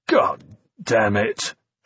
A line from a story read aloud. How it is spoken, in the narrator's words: Finch growled